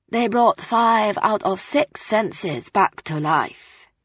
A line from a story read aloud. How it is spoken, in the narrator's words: she said in her slow voice